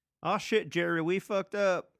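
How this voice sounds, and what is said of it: Put-on accent. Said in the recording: “There's an accent.”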